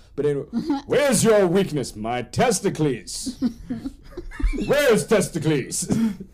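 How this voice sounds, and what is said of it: Put-on old English accent. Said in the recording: “I'm doing like an old English accent, mainly because I'm American”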